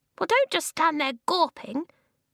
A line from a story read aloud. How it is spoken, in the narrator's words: the voice squeaked